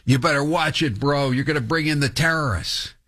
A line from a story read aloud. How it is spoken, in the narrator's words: the guy starts screaming at him, and says